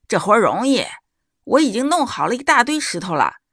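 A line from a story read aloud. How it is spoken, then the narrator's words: Loud shout. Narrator (Chinese): 他大声叫道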